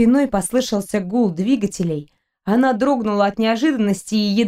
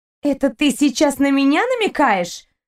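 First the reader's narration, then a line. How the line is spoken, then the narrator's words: Angry shout. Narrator (Russian): Зло крикнула ему Кристина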